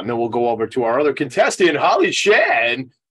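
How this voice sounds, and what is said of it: Game show host voice. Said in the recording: “that's my game show voice”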